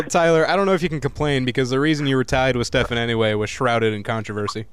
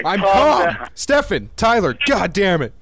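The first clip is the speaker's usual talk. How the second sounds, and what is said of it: Raised, shouting voice. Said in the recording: “don't raise your voice”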